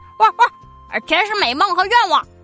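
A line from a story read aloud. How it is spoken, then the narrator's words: Excited barking. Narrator (Chinese): 狗狗汪汪的叫起来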